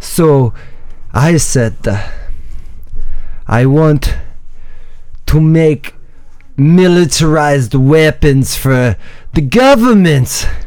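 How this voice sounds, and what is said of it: Put-on Italian accent, drifting toward Russian. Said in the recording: “Are you sure you're from Italy? Your accent got a little like... almost Russian, ... a little bit, ... not quite.”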